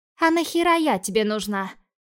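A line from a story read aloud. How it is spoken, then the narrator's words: Exhaled. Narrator (Russian): выдохнул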